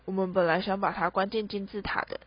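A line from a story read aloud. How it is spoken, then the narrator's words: Heavy sigh. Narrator (Chinese): 乔治重重地叹了一口气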